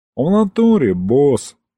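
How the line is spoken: Demon sighing. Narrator (Russian): вздохнул бес

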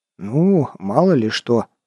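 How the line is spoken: Grumbled. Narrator (Russian): буркнул я

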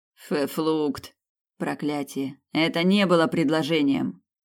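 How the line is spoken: Muttering. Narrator (Russian): пробурчал Снейдер

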